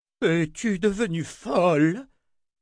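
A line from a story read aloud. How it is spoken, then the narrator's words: Roaring. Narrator (French): rugit Anna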